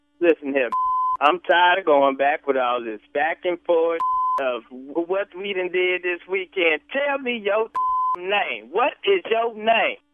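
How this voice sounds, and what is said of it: Angry shouting, raised voice. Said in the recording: “why are you raising your voice at me? ... quit screaming at me.”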